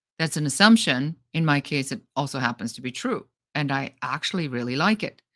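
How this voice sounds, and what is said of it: German accent in English. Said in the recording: “I'm German and I have a German accent, even though I like to believe I don't. I've been told I do.”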